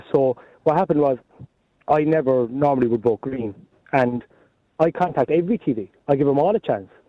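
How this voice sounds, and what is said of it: Hoarse voice, Cork accent. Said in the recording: “I'm hoarse now. If you can hear through the Cork accent”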